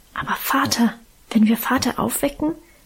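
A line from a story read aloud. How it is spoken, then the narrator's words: Fearful whisper. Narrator (German): wisperte ich ängstlich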